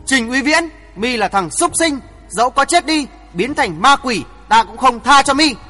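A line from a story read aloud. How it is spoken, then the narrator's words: Furious scream. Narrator (Vietnamese): Đôi mắt đỏ ngầu, Ngô Tiểu My thét lớn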